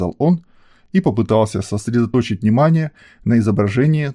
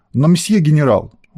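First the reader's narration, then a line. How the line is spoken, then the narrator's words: Exclaiming Frenchman. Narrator (Russian): воскликнул француз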